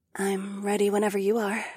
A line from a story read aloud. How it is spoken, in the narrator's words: Ahura purred